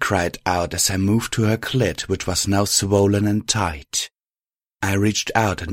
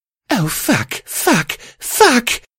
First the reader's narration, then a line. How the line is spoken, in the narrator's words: Violet squealed as she began to shiver and shake